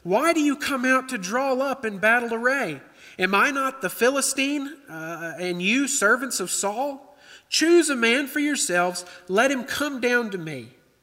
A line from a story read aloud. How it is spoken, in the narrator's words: shouted to the ranks of Israel and said to them